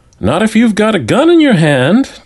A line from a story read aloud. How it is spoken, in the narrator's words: Tim McPherson, who was pre-law, piped in